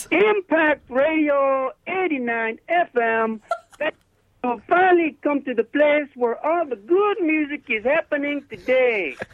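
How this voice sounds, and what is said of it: Uncanny impression of a radio host. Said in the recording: “do a David impression ... That is pretty freaky ... that is almost too scary”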